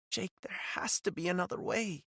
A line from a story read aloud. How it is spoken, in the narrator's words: she said, her voice barely a whisper